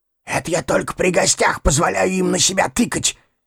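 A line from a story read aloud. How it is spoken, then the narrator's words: Whispering. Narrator (Russian): зашептал мне через стол Механизмов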